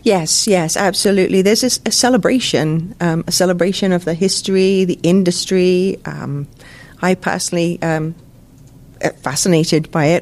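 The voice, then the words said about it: Non-local accent. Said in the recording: “You can tell from my accent I'm not from around here”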